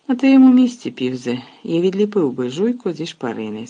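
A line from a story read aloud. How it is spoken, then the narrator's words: Calm. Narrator (Ukrainian): спокійно мовив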